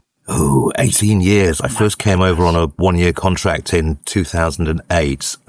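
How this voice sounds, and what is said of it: British English accent. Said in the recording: “you haven't got the accent yet. You can still pass yourself off as British.”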